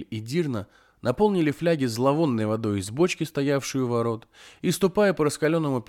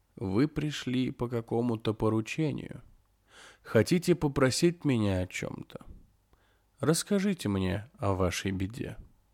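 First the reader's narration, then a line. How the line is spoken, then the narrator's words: Soft old woman. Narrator (Russian): старуха мягко сказала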